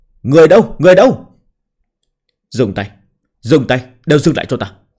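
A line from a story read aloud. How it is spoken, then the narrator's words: Startled loud shout. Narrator (Vietnamese): Quản Thanh Nhai cả kinh, lớn tiếng quát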